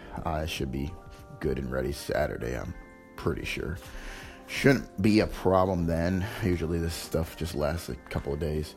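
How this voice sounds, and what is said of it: Hoarse, unusually deep sore-throat voice. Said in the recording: “my throat is really sore and I'm losing my voice. So that's why I sound really like I have a deep voice like Barry White or something”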